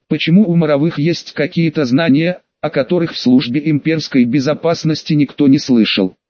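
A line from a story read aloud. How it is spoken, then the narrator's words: Plain. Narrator (Russian): спросила Жданова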